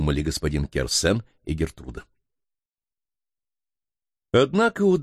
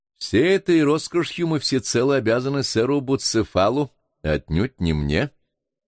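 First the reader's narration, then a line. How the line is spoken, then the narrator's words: Laughing. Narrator (Russian): смеясь заметил молодой ученый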